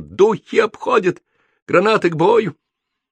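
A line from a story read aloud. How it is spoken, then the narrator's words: Hoarse rasp. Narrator (Russian): Ромашкин прохрипел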